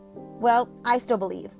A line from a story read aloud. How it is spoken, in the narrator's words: Kinsey said